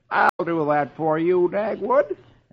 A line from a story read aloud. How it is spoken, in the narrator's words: the neighbor replies cheerfully